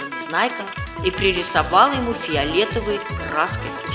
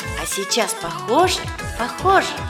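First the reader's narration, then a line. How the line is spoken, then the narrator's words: Plain. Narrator (Russian): спросил Гунька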